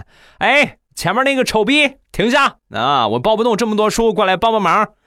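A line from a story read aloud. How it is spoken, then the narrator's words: Shouting while running. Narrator (Chinese): 我……一边跑一边喊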